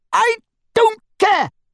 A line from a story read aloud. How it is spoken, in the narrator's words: she screamed